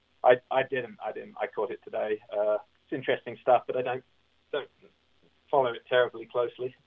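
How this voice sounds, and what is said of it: English accent. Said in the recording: “I'm more American than I am English. It's just the accent that's really remained”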